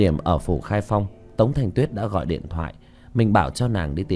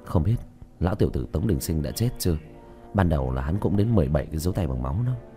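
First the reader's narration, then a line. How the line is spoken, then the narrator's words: Whispering. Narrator (Vietnamese): Tiểu Thất khẽ thì thầm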